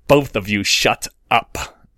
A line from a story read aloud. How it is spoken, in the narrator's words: Draco said through gritted teeth